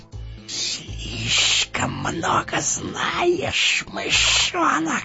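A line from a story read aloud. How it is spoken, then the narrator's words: Hissed. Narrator (Russian): прошипел он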